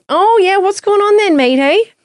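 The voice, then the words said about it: Put-on Australian accent. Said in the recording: “this guy with this Australian accent. Obviously, he's Australian.”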